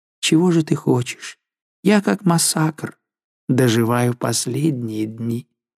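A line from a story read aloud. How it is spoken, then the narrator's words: Sad reply. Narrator (Russian): Жанна грустно отвечала ей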